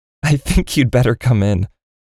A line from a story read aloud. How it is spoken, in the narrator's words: said, still chuckling